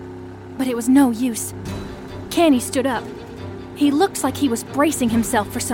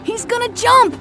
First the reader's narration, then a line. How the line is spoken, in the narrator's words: shouted Robbie